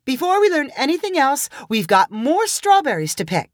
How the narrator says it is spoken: called Sunshine excitedly

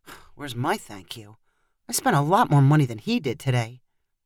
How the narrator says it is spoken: mumbled to himself

